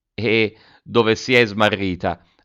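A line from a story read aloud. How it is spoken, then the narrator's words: Mother asking, laughing. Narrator (Italian): ha domandato la mamma ridendo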